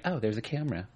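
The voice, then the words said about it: Imitates another person's voice. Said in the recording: “my impression of Frank Castle's wife”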